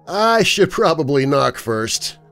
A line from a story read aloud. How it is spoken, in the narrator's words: attempted to lighten the mood with a laugh before he said